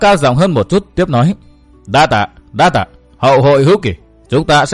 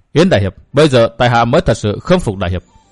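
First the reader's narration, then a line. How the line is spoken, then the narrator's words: Soft sighing. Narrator (Vietnamese): Hoa Vô Khuyết nhẹ buông tiếng thở dài, thốt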